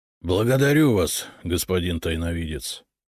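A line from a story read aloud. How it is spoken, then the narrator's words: Weary. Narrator (Russian): устало кивнул он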